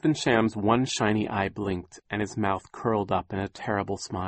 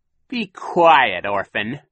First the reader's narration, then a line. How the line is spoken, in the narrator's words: Captain Sham snapped